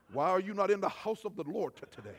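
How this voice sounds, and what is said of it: Exaggerated very spiritual preacher voice. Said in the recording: “I'll put on my very spiritual voice”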